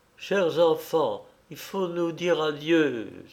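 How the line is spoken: Exclaiming. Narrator (French): s'écria-t-elle

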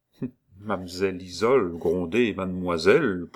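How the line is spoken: Slow speech. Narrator (French): prononça lentement Jeannette

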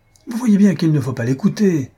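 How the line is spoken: Exclaimed. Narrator (French): s'écria Paulet

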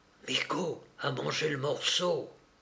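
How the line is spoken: Quick murmur. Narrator (French): il murmura vite à Soufflard

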